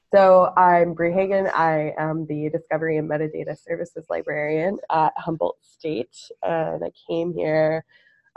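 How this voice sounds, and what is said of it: Congested voice from a cold. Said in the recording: “I have a cold right now”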